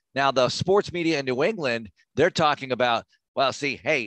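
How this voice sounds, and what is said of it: Put-on Boston accent. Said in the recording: “I'm the Boston accent right now”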